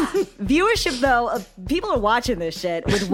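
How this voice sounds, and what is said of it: Usual voice. Nothing is said of it.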